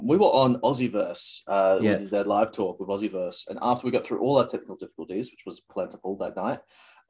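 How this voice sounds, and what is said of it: South Australian accent, sounds British. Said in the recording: “a weird about my accent ... That is very British ... A lot of South Australians, when they go overseas, get confused for British people ... South Australians super posh. They don't sound as bogan as the rest of the country.”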